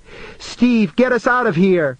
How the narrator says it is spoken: she cried

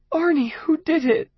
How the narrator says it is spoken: she asked, her voice breaking with grief for him

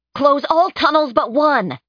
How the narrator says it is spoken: she shouted to the others

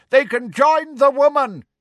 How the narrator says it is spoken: a dun-coloured centaur shouted

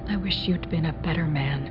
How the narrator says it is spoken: whispered

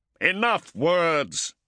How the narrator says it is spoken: Cestus roared

